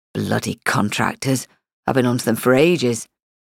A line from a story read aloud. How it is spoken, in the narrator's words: he said gruffly